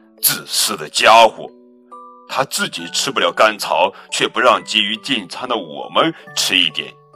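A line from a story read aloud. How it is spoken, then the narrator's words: Loud, resentful. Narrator (Chinese): 一头不敢靠近的牛大声说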